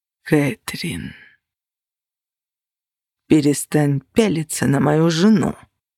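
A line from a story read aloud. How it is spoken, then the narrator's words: Growl of barely restrained rage. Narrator (Russian): С еле сдержанной яростью прорычал Костя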